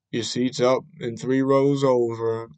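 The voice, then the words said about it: Flat monotone voice. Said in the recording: “Like, just like monotone.”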